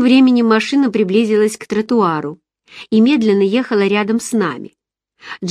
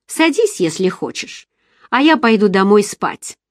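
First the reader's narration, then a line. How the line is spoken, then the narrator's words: Rude curt retort. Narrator (Russian): Она грубо отрезала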